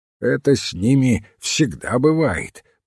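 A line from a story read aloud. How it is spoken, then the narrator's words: Mumbling. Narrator (Russian): пробурчал мистер Мандевиль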